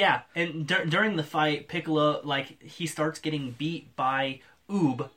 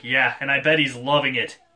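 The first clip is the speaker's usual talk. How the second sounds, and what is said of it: Deep announcer-style character voice. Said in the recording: “your deep, like, announcer voice”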